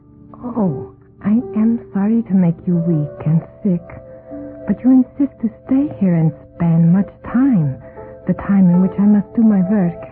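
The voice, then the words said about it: Woman's voice, strange strong accent. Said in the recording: “Her voice had the beauty I had expected, though with a strange, strong accent.”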